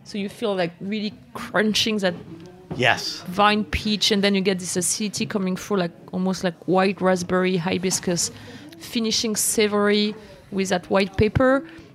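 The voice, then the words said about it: Strong non-native English accent. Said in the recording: “I'm like it's my super terrible accent.”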